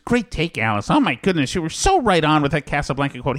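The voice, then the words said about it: Imitates another person's voice. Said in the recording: “your George impression ... That's the same impression you do for George Capablo.”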